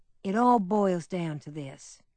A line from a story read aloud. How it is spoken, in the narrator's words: said Mrs